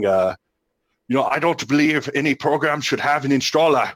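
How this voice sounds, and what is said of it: Imitates another person's voice. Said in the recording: “That was a great impersonation of Tone ... I've been practicing it.”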